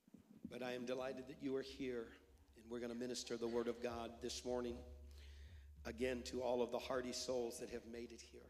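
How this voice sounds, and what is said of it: Ill, strained voice. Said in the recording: “As you can tell from my voice, I am still battling. ... So I will try not to breathe on you.”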